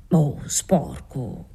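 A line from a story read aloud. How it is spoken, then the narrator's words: Good-natured murmur. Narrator (Italian): mormorò lui nella sua costante bonomia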